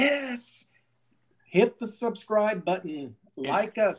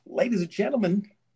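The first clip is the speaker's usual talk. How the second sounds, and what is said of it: Radio DJ announcer voice. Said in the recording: “put on my radio voice ... Put on my DJ voice.”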